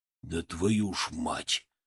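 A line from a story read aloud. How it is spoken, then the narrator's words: Exhaled. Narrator (Russian): выдохнул Тарасов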